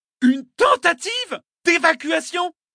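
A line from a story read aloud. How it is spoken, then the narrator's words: Senator yelling. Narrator (French): hurla le sénateur Richaud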